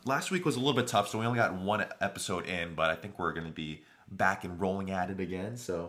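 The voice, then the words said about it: Slightly worn, hoarse voice. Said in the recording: “my voice is a little shot from recovering from being sick”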